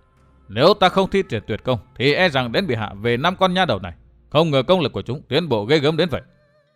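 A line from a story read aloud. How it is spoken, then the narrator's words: Angry inner thought. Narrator (Vietnamese): chàng nổi lòng tức giận, bụng bảo dạ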